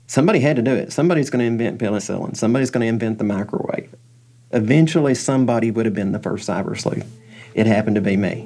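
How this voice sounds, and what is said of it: Distinct Southern US accent. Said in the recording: “a distinct southern accent”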